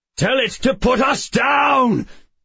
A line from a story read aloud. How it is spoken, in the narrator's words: Addison was shouting